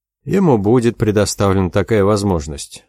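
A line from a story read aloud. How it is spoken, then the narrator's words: Dry. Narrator (Russian): сухо сказал Хелдер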